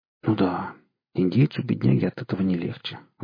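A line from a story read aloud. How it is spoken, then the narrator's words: Sighed. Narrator (Russian): вздохнул удалец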